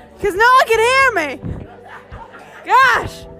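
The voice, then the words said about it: Yelling. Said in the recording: “so I'm yelling!”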